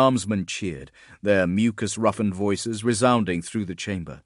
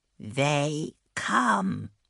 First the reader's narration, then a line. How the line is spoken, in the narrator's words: a voice croaked